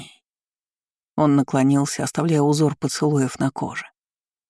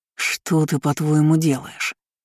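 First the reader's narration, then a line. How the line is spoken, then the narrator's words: Hissing. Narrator (Russian): прошипел он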